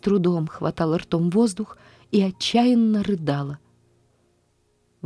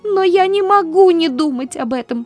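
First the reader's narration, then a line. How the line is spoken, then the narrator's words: Sobbing. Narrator (Russian): зарыдала она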